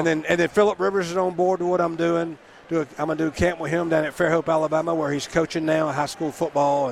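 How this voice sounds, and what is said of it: Southern Alabama accent. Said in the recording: “from Alabama. Don't you love his accent”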